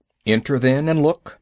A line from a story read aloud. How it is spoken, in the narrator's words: said Father Wolf stiffly